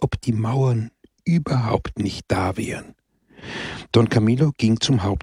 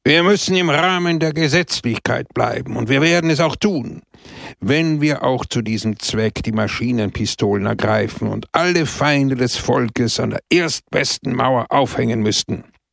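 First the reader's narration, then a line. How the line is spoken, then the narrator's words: Sharp, harsh speech. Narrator (German): da er ein Extremist war, sprach er scharf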